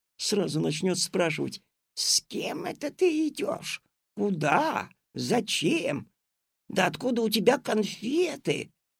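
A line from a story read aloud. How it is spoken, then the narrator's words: Loud hiss. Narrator (Russian): кто-то громко зашипел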